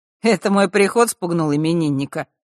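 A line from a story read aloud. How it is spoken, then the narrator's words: Smirking snort. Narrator (Russian): хмыкнул Мар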